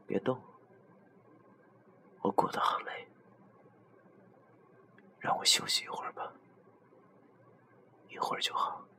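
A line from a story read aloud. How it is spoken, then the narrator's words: Soft murmur. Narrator (Chinese): 他喃喃的轻声说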